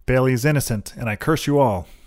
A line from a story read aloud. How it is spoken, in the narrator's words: Trail shouted